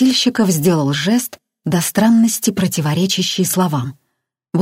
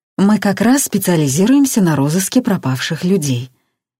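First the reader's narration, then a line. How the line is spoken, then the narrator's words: Soft. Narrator (Russian): мягко сказал один из сыщиков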